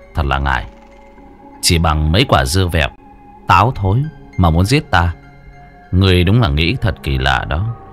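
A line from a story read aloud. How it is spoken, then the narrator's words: Cold. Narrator (Vietnamese): Bạch Tử Cống lạnh lùng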